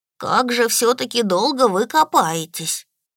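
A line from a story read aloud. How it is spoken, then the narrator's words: Bored sigh. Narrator (Russian): вздохнул заскучавший элементаль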